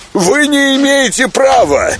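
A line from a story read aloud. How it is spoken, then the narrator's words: Shouting. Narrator (Russian): кричал Павел Павлович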